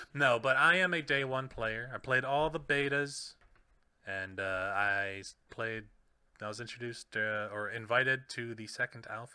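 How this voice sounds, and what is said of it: Radio announcer voice, close to mic. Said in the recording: “I'm pretending I'm a radio voice actor kind of person right now. I'm getting close to the mic”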